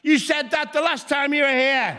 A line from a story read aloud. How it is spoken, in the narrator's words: a member of the audience shouted out